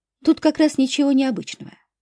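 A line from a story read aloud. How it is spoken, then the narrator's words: Calm. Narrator (Russian): спокойно ответила женщина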